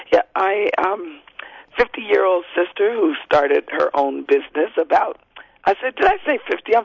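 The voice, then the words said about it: Voice with a slight cold. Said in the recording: “I have a little bit of a cold”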